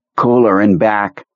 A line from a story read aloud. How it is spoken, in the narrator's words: he said in his new, strange voice